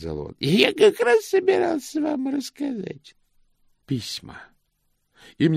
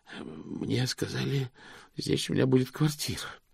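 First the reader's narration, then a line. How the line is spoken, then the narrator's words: Hoarse wheeze. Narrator (Russian): просипел он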